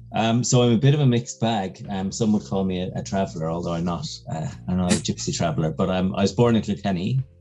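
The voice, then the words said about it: Soft, subtle Irish accent. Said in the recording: “subtle Irish lilt ... a bit of a neutral Irish accent. Kind of soft, I suppose.”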